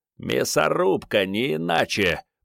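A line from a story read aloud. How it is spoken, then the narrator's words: Hoarse rasp. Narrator (Russian): прохрипел Нача Перот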